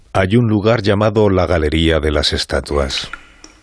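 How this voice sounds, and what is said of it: Documentary narrator voice. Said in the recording (Spanish): “¿Tengo que poner voz de documental o no?... Yo me había ya metido en el personaje del documental.”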